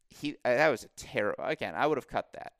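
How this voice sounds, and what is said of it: Disappointed tone. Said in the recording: “hear the disappointment in my voice?”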